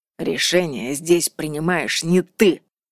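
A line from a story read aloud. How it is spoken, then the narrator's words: Close growl overhead. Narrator (Russian): прорычал прямо над ее макушкой Атта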